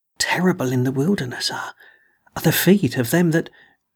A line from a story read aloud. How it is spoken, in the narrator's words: he would moan one minute, and then the next would whisper